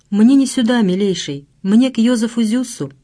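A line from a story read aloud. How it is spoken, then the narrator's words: Timid. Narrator (Russian): Она робко сказала капралу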